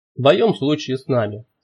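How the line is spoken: Plain. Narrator (Russian): сказал профессор

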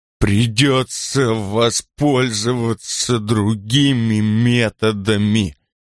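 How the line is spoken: Slow speech. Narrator (Russian): медленно сказал он

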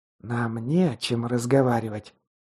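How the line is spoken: Angry hiss. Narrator (Russian): злобно прошипела та

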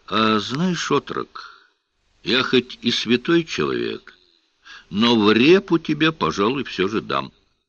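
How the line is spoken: Gentle, kind. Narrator (Russian): ласково сказал

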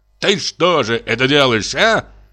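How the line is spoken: Shouted. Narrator (Russian): закричал он

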